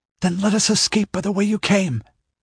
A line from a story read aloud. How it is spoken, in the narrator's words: exclaimed Marilo